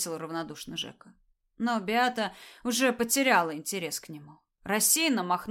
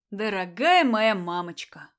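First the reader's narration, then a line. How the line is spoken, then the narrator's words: Solemn. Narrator (Russian): торжественно сказал Мишель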